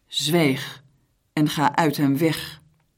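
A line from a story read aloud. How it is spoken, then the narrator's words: Stern. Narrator (Dutch): Jezus sprak hem streng toe en zei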